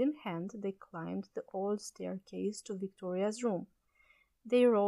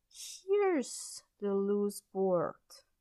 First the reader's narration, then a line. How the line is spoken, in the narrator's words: exclaimed